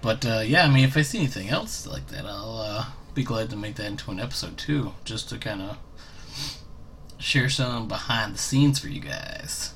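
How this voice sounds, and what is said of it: Southern accent. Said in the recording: “I have a southern accent”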